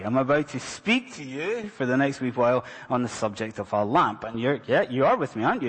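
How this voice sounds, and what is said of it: Scottish accent. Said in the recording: “especially with a weird Scottish accent”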